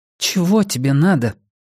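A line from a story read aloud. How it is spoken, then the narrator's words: Forced chuckle. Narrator (Russian): Он выдавил из себя смешок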